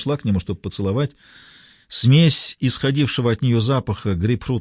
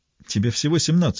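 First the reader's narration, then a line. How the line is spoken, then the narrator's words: Laughing. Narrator (Russian): засмеялся Бен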